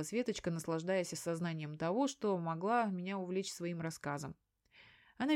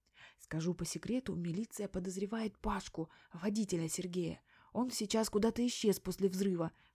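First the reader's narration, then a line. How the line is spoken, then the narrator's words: Secretive whisper. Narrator (Russian): шепотом поделилась она со мной великой тайной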